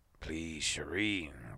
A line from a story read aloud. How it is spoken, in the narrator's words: growled Atom